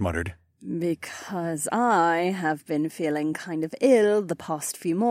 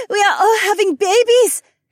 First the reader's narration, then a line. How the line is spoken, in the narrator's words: Heiwan squealed